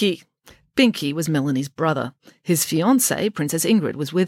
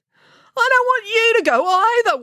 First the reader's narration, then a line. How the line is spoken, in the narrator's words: wailed Binky